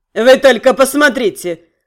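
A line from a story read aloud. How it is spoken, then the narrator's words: Snorting. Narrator (Russian): хмыкнул он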